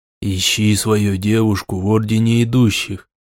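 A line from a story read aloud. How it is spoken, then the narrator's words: Whisper in the ear. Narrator (Russian): Даландир шепнул мне на ухо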